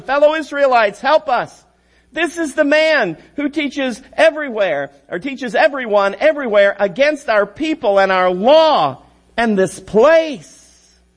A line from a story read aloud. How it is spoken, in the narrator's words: some Jews from the province of Asia shouting